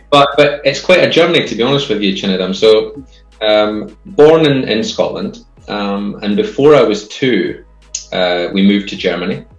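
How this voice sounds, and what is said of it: Scottish accent. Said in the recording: “obviously my accent tells you that, hopefully it tells you I'm Scottish”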